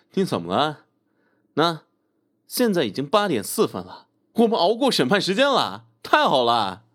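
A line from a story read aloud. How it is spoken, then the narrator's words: Laughing. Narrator (Chinese): 陈伟……于是笑道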